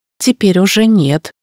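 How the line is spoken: Snorting. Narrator (Russian): хмыкнул Марк

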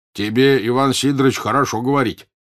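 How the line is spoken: Angry. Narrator (Russian): сердито заговорил первый купец

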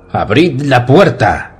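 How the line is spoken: Shouting, big man. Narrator (Spanish): gritó el gran Liddell

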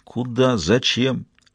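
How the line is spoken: Sleepy mumble. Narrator (Russian): пробормотал Ги, продирая глаза

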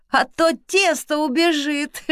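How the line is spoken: Laughing speech. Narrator (Russian): Сквозь смех проговорил Артём

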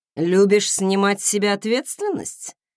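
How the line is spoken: Nasty snort. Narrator (Russian): нехорошо хмыкнул Даррелл

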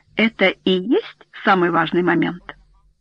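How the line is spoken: Plain. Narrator (Russian): спросил Гарт

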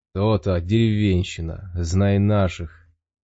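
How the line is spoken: Mocking chuckle. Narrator (Russian): Ган хохотнул

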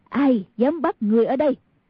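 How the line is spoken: Angry woman's voice. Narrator (Vietnamese): Người đàn bà kia tức giận nói

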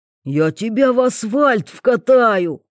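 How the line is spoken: Growling. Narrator (Russian): рычал Васька

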